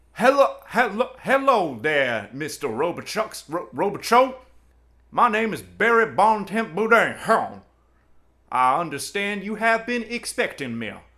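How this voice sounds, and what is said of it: Put-on Cajun accent. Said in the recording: “my Cajun accent”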